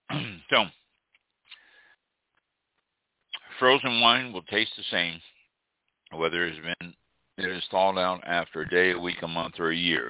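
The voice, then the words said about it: Voice sounds bad, strained. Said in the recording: “my voice is horrible tonight”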